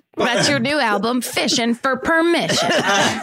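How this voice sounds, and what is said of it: Put-on Southern accent. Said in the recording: “I did the accent. ... not right ... to do to a Southerner ... They sound Southern”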